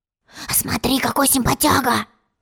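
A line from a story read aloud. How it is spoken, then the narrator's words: Whispered. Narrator (Russian): шепнул тец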